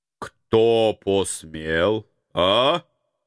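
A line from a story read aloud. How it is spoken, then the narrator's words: Menacing, heavy rural O-accent. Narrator (Russian): Грозно окая староста Калачинцев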